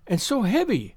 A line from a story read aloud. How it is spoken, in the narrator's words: she exclaimed, trying to raise it